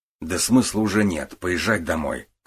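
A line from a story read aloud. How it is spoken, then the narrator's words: Snorting. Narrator (Russian): хмыкнул Гуров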